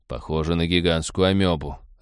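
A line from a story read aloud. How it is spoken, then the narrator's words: Disappointed sigh. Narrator (Russian): разочарованно вздохнул Роджер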